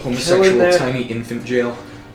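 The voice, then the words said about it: Put-on Scottish accent. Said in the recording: “suddenly Scottish”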